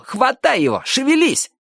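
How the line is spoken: Shout. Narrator (Russian): крикнул Джонни О

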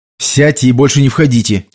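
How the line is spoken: Sharp. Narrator (Russian): резко сказал Энди

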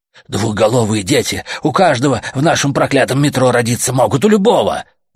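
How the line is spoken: Shouted out. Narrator (Russian): выкрикнул Гомер

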